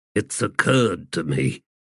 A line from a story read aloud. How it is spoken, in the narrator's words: Deadsmell said in a mumble